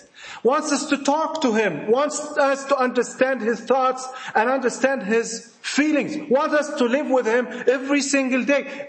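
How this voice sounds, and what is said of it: Egyptian accent. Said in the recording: “Forgive my Egyptian accent.”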